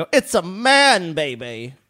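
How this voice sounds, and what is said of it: Poor Austin Powers impression. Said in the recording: “Austin Powers ... That's a terrible impression”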